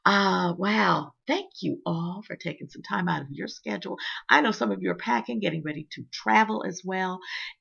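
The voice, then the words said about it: Slightly dry voice. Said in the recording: “my voice is getting just a bit dry here”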